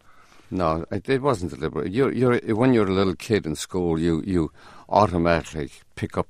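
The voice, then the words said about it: Irish Limerick accent. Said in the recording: “you determinedly then picked up a Limerick accent, your Irish accent, which has stayed with you ever since”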